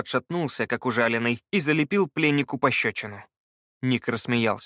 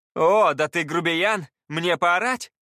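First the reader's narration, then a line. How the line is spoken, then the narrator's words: Full-throated yell. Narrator (Russian): И голос завопил во всю глотку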